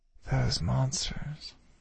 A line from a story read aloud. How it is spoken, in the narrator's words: I breathed